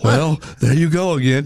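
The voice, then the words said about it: Imitates another person's voice. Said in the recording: “How'd I do on the impersonation? ... Pretty good.”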